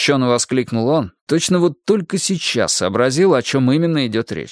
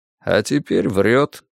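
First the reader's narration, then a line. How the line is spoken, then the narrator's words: Quiet, matter-of-fact. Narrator (Russian): негромко констатировал Двуха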